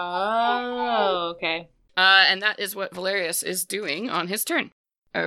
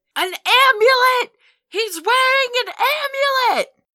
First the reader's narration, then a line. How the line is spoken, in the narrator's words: you hear Valerius start screaming